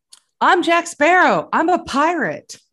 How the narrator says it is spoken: she's drunk, she was yelling

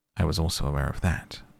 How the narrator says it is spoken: murmured Holmes

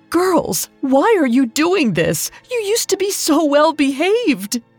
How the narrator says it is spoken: She sobbed

